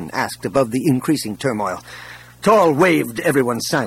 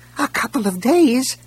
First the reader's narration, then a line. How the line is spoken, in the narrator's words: a voice squeaked